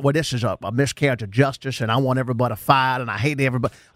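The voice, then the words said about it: Exaggerated Southern drawl impression. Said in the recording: “Is Jerry Jones from Louisiana now? ... my bad impression ... That was a good Fletch Lives accent ... A crawl dad. Maybe even Kentucky ... That was a little Foghorn Leghorn.”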